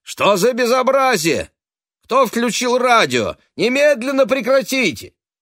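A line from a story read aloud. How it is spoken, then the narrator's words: Irritated male shout, muffled. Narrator (Russian): Было хорошо слышно за тонкой дверью, как раздраженный мужской голос крикнул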